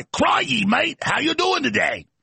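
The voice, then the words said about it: Weak attempt at Australian accent. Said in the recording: “Can't even do the Australian accent.”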